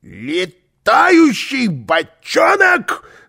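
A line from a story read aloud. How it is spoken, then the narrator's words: Yelled. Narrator (Russian): завопил он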